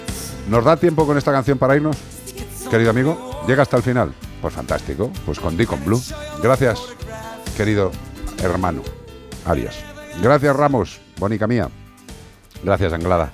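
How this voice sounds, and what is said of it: Husky late-night radio voice, sore throat. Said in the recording (Spanish): “Perdonad las toses del día de hoy ... se me está poniendo voz de programa de noche ... me duele ya la garganta”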